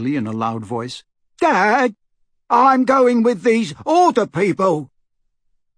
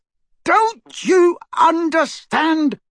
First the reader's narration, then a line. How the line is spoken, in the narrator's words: shouted Harry